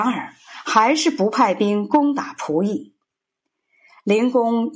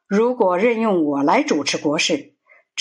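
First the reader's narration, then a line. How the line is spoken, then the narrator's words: Resigned sigh. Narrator (Chinese): 孔子无可奈何的叹气说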